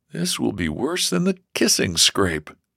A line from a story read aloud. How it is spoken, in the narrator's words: George groaned to himself